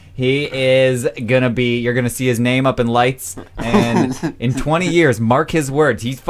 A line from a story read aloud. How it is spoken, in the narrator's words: he yelled it at me